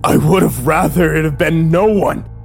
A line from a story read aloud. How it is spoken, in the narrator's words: I screamed at him